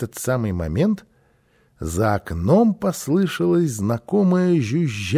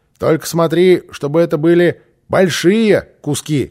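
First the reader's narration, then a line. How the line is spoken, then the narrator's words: Shouted. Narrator (Russian): крикнул Босса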